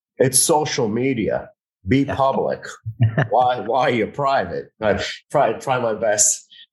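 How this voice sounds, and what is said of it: Imitates another person's voice. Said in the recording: “impersonation.”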